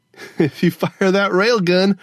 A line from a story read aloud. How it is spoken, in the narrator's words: Gogo Fernanda laughed